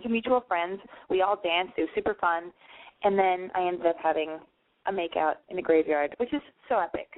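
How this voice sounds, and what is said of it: Tired, slightly hoarse voice. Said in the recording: “I'm still tired ... my voice is a little hoarse.”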